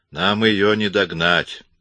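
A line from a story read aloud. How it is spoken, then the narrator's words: Gloomy. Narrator (Russian): мрачно проговорил Коридон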